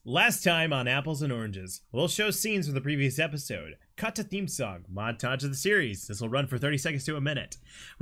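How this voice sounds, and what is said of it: Announcer-style voice. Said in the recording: “Announcer voice.”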